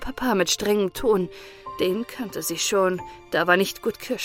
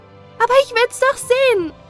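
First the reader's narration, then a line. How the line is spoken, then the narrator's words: Called out. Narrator (German): rief Elsbettchen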